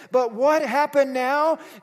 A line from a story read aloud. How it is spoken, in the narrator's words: Jesus cries out, giving up his soul